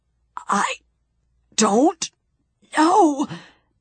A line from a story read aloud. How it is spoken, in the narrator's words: he gasped